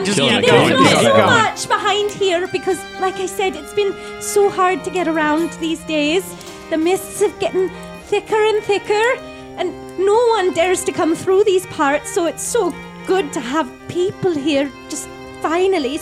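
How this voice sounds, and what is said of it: Weak attempt at Welsh accent. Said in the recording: “I can't really do a Welsh accent either”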